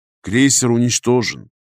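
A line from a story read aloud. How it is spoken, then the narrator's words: Grim statement. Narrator (Russian): мрачно заявил я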